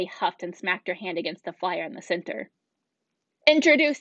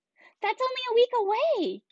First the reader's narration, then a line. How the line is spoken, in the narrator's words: Kinsey squealed